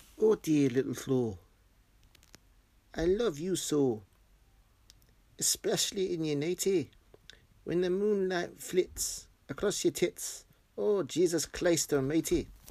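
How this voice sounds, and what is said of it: Put-on Scottish accent. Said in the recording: “To read it in my best Scottish accent.”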